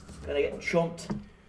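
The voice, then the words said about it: Character's put-on accent. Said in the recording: “It's been so long since I've done the accent. I got to slide back into it.”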